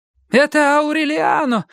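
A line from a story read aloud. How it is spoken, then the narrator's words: Woman shouting. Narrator (Russian): закричала она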